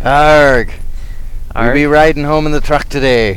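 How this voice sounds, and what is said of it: Pirate character voice. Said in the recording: “pirate impersonation ... Blackbeard”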